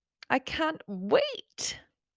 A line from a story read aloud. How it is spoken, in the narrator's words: June looked over at her excitedly and said